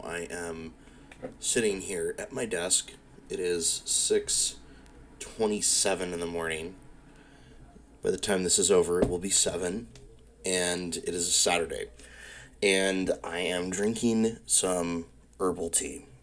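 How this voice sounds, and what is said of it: Gruff, early-morning voice. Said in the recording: “my voice sounds a little gruffy, that's probably why, because it's really, really fucking early in the morning”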